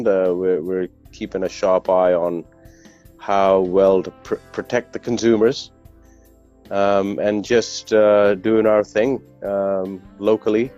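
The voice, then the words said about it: Slight British English accent. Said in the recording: “the English accent, a little slight British accent”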